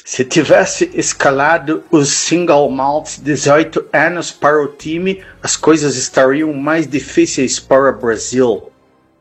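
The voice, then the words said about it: Half Santa Catarina, half Scottish accent. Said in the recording (Portuguese): “Gostou do sotaque? ... foi um meio catarinense com escocês”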